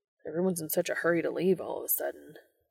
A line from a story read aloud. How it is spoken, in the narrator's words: Dean muttered